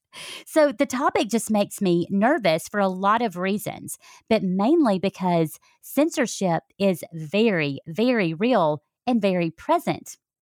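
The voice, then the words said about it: Southern American accent. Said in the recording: “the Southern accent gets worse when I'm feeling very passionate about a subject or when I'm very upset ... my sound editor cannot do anything about toning down the accent.”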